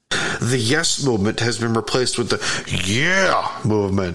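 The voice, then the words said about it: Poor impersonation. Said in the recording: “Terrible impersonation.”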